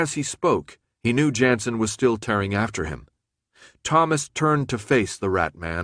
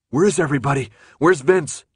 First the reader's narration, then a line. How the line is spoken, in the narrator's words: Thomas panted